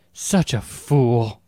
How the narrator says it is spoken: Aaliyah gasped

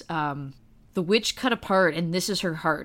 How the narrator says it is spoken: said the husband

